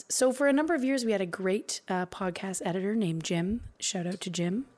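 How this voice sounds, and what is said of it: Strange, honking voice from a cold. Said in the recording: “my very strange voice ... I have the 30-day cold ... if I sound a bit like a goose”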